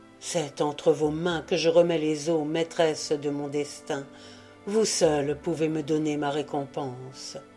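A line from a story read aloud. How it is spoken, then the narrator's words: Ardent voice. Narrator (French): dit d'une voix ardente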